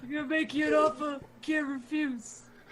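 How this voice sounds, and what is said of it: Godfather movie character voice. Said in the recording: “your Godfather impression ... a Marlon Brando voice ... It's not bad. It's better than expected”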